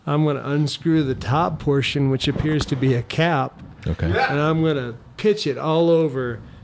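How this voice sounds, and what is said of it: Imitates another person's accent. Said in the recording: “Why am I using his accent?”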